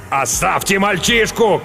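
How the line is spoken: Shouting, wounded man. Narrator (Russian): крикнул римлянин, залитый кровью

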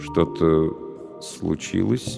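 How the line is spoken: Slow question. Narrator (Russian): медленно спросил

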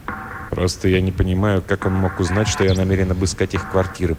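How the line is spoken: Muttered. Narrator (Russian): пробормотал Флендри

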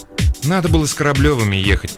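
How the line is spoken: Grumbling. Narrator (Russian): проворчала Маринка

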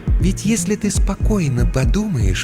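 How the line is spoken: Insinuating, ingratiating tone. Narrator (Russian): вкрадчиво произнесла Ния

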